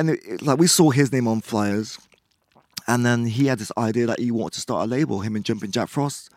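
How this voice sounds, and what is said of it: Usual voice. Nothing is said of it.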